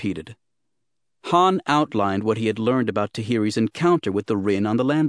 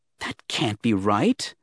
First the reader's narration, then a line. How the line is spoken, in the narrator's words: the young Jedi muttered